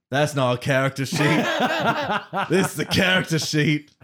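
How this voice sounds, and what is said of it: Put-on Australian accent. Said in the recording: “let's hear your Australian accent ... It's actually not bad ... So bad”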